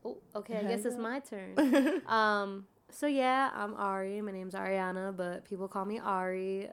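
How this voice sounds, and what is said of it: Slightly raspy voice. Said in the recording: “A little raspy there.”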